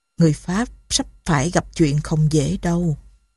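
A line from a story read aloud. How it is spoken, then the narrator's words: Moved, soft voice. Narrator (Vietnamese): Thiếu tá Betty lộ vẻ xúc động, khẽ bảo Saint-Denis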